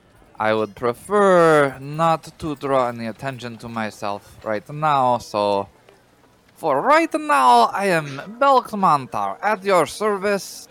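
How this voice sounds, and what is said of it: Odd put-on character voice. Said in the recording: “you were talking kind of weird there”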